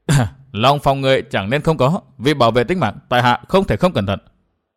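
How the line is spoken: Smiling, wary. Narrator (Vietnamese): Dư Hóa Long mỉm cười

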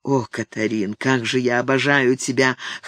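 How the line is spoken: Husky, barely suppressed passion. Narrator (Russian): хрипловато произнес он ... и в его голосе прозвучала с трудом подавляемая страсть

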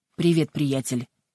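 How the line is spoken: Forced calm greeting. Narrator (Russian): поздоровался с ним Пен, стараясь говорить спокойным голосом

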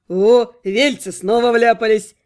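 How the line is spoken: Nearby chuckle. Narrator (Russian): Хохотнули рядом

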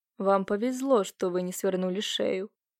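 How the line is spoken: Hoarse muffled male voice. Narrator (Russian): произнес мужчина в маске хриплым приглушенным голосом

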